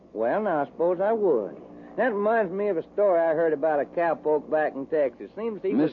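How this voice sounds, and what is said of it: Texas accent. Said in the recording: “do you ever get tired of that accent? ... I just talk the way folks talk in Texas. ... That's Texas talk.”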